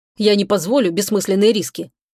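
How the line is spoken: Cold reply. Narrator (Russian): холодно ответил Чебурану Иван

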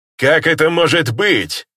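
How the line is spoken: Shout. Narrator (Russian): выкрикнул один из них

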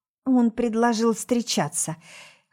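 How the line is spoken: Hoarse strained words. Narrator (Russian): хрипло выдавливаю

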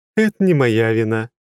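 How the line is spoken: Laughing. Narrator (Russian): рассмеялась императрица

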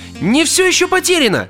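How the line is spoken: Dramatic exclamation. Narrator (Russian): патетически воскликнул он

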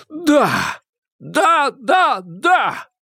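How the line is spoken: Shout. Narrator (Russian): Стрелковский выкрикнул

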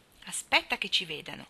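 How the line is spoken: Murmured. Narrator (Italian): mormorò Demi

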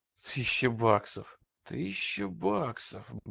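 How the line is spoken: Muttering to himself. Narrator (Russian): бормотал он про себя

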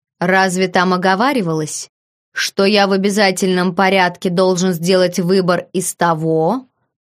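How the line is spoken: Contemptuous scoff. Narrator (Russian): Я презрительно хмыкнул

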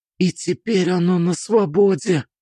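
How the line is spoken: Whispered. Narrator (Russian): прошептала Алиса

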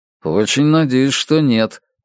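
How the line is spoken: Grumble. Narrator (Russian): проворчал Страйк

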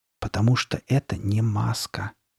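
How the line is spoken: Almost a whisper. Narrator (Russian): почти шепотом проговорил он

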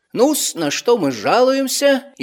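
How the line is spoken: Cheerful old doctor. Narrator (Russian): бодро заговорил старый доктор

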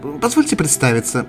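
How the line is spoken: Cheerful woman's reply. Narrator (Russian): весело ответила незнакомка

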